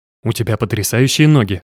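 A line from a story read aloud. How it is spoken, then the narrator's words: Muttering. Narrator (Russian): пробормотал Макс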